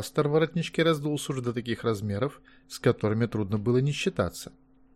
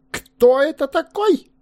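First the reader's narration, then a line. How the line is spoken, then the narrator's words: Sudden shriek. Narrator (Russian): взвизгнул вдруг пастор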